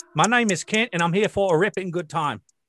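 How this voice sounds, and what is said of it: Put-on Australian accent. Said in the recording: “I sound like an inbred Australian? ... does it sound like, yeah, that's Australian, but it's like backwoods ... You actually sound more like the normal Australians ... You sounded the most Australian.”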